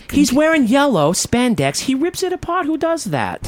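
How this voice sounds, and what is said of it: Character voice of a woman. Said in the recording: “I'm gonna do her voice”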